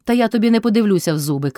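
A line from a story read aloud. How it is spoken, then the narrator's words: Shouting. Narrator (Ukrainian): крикнув Кайдаш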